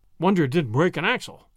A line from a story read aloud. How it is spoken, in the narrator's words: Davies growled